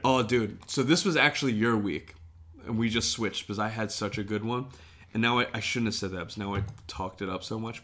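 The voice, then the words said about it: Hoarse, worn-out voice. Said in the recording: “I think I lost my voice, dude. We've also been talking for 3 hours ... Oh, dude, I'm done. It's gone ... Obliterated”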